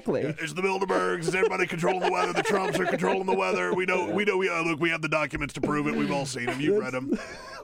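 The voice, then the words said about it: Loud, blustering imitation of another person. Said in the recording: “Let's just turn it into an Alex Jones segment ... my one impression ... loudmouth, beefy white guy. I think I can nail that impression.”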